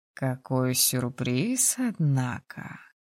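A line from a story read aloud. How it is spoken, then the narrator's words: Drawling, pleased. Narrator (Russian): протянул он, расплывшись в широкой довольной ухмылке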